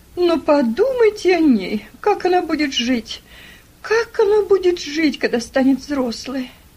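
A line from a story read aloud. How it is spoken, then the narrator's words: Exclamation. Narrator (Russian): воскликнула Мари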